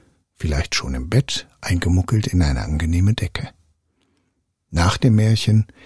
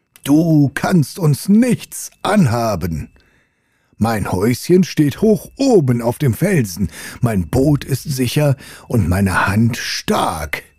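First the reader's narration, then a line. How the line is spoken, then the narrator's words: Roaring against the sea. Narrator (German): brüllte er dem Meer entgegen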